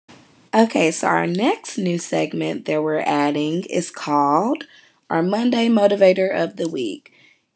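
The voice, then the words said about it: Raspy voice. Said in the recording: “excuse my voice, I know it's really raspy.”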